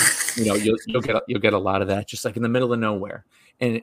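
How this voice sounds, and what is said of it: Usual voice. Nothing is said of it.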